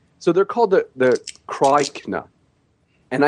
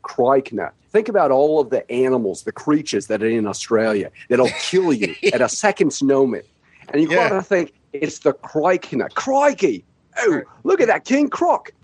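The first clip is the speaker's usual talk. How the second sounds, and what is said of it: Put-on Australian accent. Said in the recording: “I can't say that without an Australian accent.”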